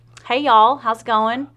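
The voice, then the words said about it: Southern US accent. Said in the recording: “I've sort of lost my accent until I talk to anyone from the South ... And then all of a sudden, I'm just like”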